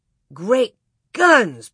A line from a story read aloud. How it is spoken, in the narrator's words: Pa exclaimed sleepily